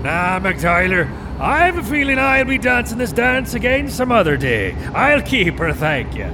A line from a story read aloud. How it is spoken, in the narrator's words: he yelled back over his shoulder